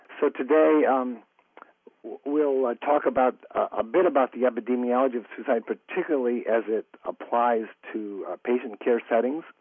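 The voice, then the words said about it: Weak, strained voice. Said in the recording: “my voice is a little weak, so I'm sitting here with a nice glass of warm tea and some cough drops”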